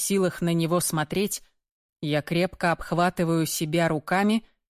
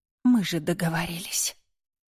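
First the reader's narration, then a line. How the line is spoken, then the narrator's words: Whispered reminder. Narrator (Russian): Шепотом напоминаю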